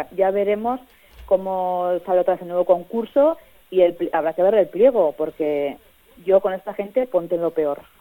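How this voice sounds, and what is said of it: Regional Navarrese Spanish accent. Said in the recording (Spanish): “cuando hablas de Navarra te sale el acento, te sale el ico”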